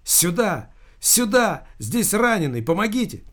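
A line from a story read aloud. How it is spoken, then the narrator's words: Shouting for help. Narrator (Russian): кричала она медикам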